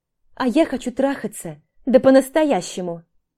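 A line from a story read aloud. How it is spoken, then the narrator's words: Exclaiming. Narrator (Russian): воскликнула Маша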